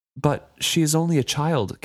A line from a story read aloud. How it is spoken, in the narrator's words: Kefria pleaded